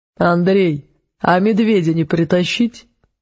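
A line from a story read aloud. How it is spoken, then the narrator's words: Ancient one's short laugh over radio. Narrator (Russian): коротко засмеялся в эфире древний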